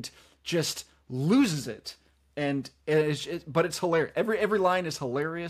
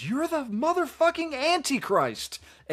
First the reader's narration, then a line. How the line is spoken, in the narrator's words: he's yelling, and he just stops and he goes